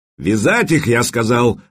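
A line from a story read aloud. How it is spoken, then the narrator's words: Barking. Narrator (Russian): рявкнул Свей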